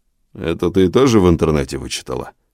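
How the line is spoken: Man's grumble. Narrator (Russian): буркнул мужчина

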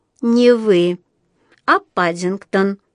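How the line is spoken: Stern correction. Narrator (Russian): строго поправила миссис Бёрд

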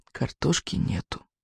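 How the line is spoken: Even quieter whisper. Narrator (Russian): Еще тише прошептала она

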